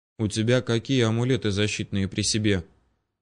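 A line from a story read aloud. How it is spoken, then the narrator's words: Quiet inquiry. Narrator (Russian): тихонько поинтересовался у меня Мстислав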